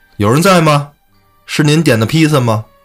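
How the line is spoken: Shouting. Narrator (Chinese): 他一声喊

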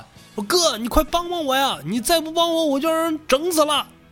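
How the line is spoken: Urgent distant shout. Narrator (Chinese): M B 仔赶紧朝着远方的一个小山坡那高喊

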